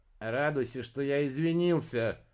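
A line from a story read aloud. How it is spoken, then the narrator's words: Rude, gruff. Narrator (Russian): грубо ответил Фелди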